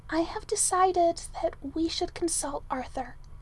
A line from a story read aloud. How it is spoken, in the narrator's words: Merlin whispered at last